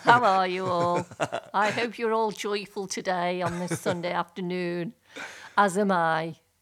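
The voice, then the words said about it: Put-on posh telephone voice. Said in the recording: “Are you from Liverpool? Because I don't know what this accent is you're putting on. ... This is my telephone voice. ... My telephone voice and my teacher's voice.”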